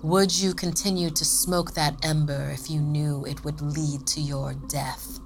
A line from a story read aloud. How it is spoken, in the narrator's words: Sophie sneered